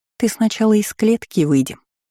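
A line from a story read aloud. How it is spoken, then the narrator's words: Sweet, sugary voice. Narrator (Russian): произнесла я сладким голосочком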